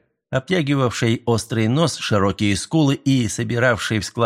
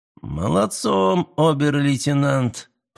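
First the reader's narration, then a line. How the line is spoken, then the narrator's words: Purring. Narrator (Russian): промурлыкал Гауптман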